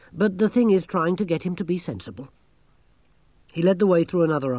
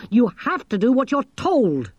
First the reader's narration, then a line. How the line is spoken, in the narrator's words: snapped Angelo